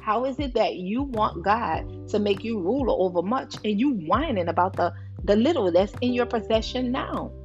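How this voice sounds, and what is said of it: Louder, emphatic repetition. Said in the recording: “Say it louder for the people in the back.”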